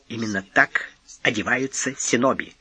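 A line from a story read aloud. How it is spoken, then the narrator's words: Nervous whisper, giggling. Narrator (Russian): шепнул он, нервно хихикнув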